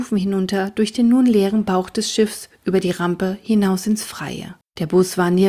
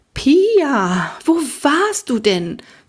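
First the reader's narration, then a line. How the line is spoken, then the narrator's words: Excited question. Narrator (German): fragte Frau Winkler aufgeregt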